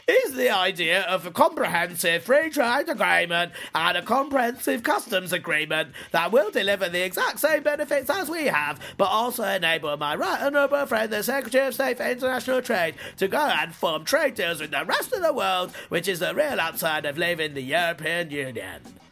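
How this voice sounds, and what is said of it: Imitates another person's voice. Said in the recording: “in my best David Davis voice ... Sounded pretty much like him, didn't it? Pretty good impression.”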